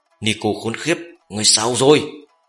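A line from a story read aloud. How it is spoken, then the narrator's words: Startled loud roar. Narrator (Vietnamese): Lòng của gã chợt giật, lớn tiếng gầm lên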